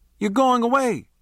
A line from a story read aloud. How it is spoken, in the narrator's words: I yelled